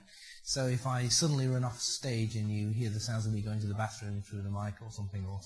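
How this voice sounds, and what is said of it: Quieter, flu-affected voice. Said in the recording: “normally my voice is much, much louder than this ... gave me flu or something close to it”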